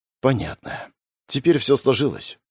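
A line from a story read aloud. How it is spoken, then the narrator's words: Sighing. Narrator (Russian): вздохнул Фредерик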